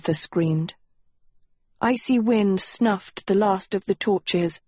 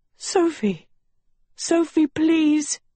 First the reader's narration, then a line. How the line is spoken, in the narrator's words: Agatha choked